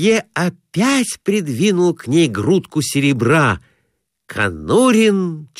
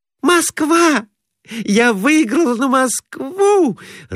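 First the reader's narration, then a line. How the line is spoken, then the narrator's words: Joyful cry. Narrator (Russian): радостно вскрикнула Глафира Семеновна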